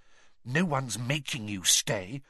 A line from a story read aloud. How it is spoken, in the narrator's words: Hermione whispered, bristling at her